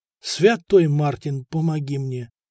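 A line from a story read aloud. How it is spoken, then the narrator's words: Frightened whisper. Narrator (Russian): белыми губами прошептал Николай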